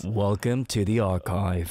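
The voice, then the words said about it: Deep, majestic put-on radio voice. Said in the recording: “majestic King Sejong voice ... I'm not really a baritone ... radio voice ... great voice acting ... It's horrible.”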